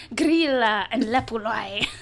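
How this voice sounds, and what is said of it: Put-on Icelandic accent. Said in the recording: “I'm just going to do a Bjork impression when I say these names”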